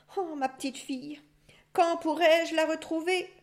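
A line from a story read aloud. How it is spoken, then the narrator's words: Father moaning. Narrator (French): gémissait le père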